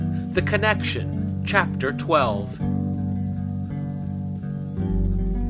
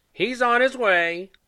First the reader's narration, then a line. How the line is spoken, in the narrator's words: Granny said loudly